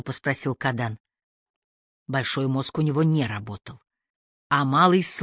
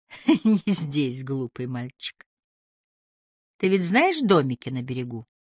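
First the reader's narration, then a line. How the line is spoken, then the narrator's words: Breathless laughing woman. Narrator (Russian): Задыхаясь, она рассмеялась и сказала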